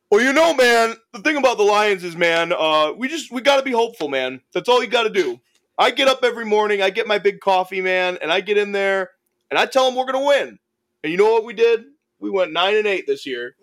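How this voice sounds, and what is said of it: Imitates another person's voice. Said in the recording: “I'll do a good Dan Campbell impression... Oh, he does do a good Dan Campbell.”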